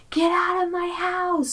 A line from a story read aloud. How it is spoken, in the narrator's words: he yells